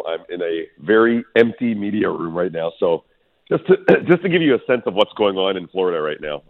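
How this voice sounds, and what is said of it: Deeper voice than usual. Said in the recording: “My voice is a little deeper than usual”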